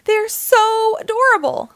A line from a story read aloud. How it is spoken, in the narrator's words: squealed Lucy